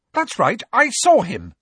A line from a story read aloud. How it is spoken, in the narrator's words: she said fiercely